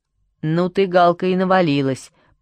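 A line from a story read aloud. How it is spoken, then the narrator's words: Grumbling. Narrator (Russian): проворчал Федя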